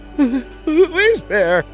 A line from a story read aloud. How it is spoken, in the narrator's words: braver of the sisters called out a strangled